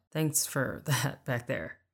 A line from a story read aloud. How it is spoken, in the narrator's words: he chuckled